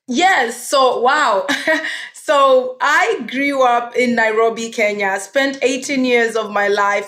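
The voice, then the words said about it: Kenyan accent. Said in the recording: “that beautiful accent... You're originally from Kenya”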